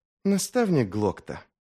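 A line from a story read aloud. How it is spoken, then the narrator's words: Soft, friendly, smiling. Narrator (Russian): мягко, дружелюбно, с обаятельной улыбкой произнес он наконец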